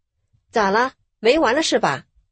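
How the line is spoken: Stern, sharp rebuke. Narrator (Chinese): 丈夫不紧不慢地从座位上站了起来，然后手指着激战中的两个人，厉声呵斥道

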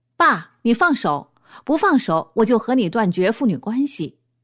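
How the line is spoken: Loud roar. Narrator (Chinese): 不远处发出一个响亮的吼声

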